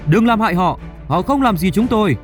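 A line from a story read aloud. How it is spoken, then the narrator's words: Hostage shouting. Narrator (Vietnamese): Một trong số những con tin đã hét lên với cảnh sát rằng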